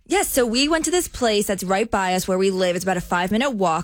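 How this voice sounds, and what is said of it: New Jersey accent. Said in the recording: “is from New Jersey, so you hear a lot of Jersey accent popping on the show.”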